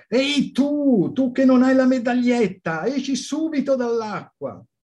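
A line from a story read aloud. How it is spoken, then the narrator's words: Lifeguards shouting. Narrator (Italian): i due bagnini stavano gridando al suo indirizzo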